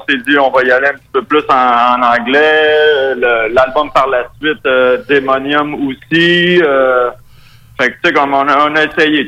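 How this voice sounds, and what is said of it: Strong Québécois French accent. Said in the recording (French): “mon accent très québécois”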